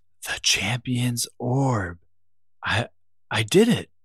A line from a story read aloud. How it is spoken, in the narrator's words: Overcome with his own accomplishment, whispered to himself